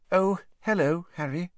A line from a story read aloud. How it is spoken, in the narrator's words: she said in a brittle voice